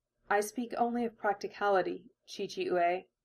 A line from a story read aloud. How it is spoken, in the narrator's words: Hinata murmured